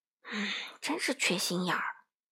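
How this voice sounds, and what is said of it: Quiet, hushed character line. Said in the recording (Chinese): “小声补充道”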